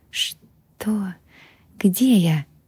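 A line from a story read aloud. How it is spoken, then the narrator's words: Barely audible whisper. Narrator (Russian): прошептала, а голос был едва слышен в тишине комнаты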